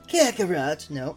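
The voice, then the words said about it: Cartoon villain character voice. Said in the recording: “Be sure to do your best Frieza impression.”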